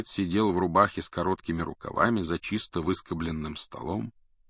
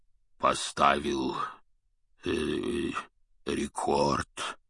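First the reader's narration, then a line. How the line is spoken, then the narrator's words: Hoarse bass voice. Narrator (Russian): севшим басом произнес он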